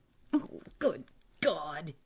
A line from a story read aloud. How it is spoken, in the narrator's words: he cried in an agonized voice